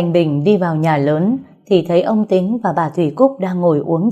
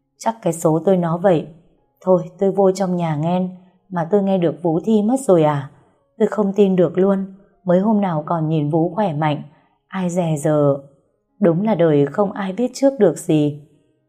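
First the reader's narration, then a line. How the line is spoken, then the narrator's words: Sad, sighing. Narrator (Vietnamese): Thanh Bình buồn bã mà thở dài rồi nói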